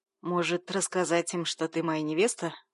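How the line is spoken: Smirking snort. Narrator (Russian): Хмыкнул он

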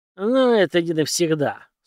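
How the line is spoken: Angry, through gritted teeth. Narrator (Russian): зло процедил Александр

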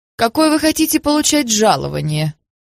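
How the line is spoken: Hesitant, timid. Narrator (Russian): Жанна колебалась, наконец, робко сказала

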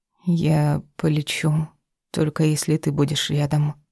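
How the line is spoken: Quiet whisper. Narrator (Russian): тихо шепчу

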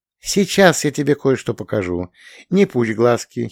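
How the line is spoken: Giggling. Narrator (Russian): хихикнула она

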